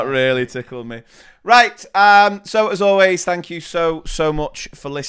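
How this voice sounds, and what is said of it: Usual voice. Nothing is said of it.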